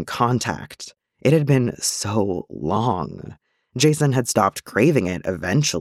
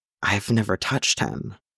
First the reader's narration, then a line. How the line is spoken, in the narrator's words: Roy whispered